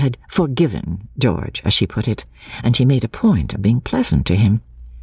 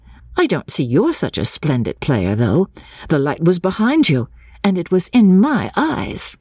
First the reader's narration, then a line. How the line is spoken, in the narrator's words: She added merrily